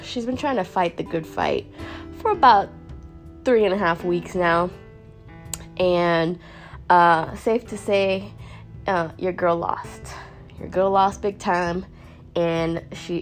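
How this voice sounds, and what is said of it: Nasal, congested voice. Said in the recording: “I sound a little nasally and not like myself ... Your girl's a little sick”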